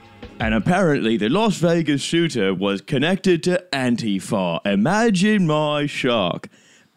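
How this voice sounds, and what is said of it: Imitates another person's voice, exaggerated British. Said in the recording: “Anytime I try to do an impression of Paul Joseph Watson, it always ends up coming out as the Dick Van Dyke of the alt-right”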